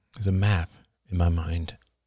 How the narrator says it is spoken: murmured Oliver

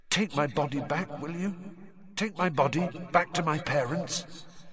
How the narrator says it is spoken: whispered the figure of Cedric

